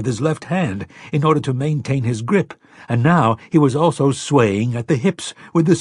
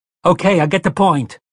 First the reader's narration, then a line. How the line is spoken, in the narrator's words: Eddie shouted